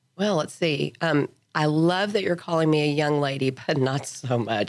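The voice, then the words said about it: Congested voice from a cold. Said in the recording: “I have a cold. So this will but not be my normal voice... I will sound different. Are you sure you're not trying to do the sultry voice... Really, I sound like a cartoon character”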